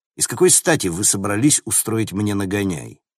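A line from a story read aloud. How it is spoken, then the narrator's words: Grim smirk. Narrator (Russian): Она мрачно усмехнулась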